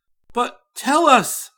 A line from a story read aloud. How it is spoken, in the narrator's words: I cried, unable to control myself any longer